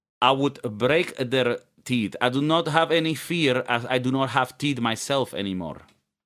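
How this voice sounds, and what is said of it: Put-on Eastern European accent. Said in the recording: “maybe the accent is Ukrainian ... it could have been a more of an Ukrainian one there”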